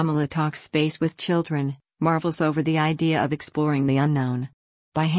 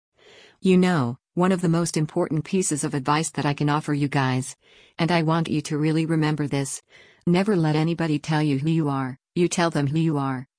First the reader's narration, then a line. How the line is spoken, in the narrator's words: she said